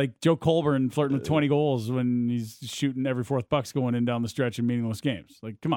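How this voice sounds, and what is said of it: Usual voice. Nothing is said of it.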